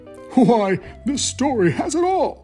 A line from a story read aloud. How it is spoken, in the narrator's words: exclaimed the knight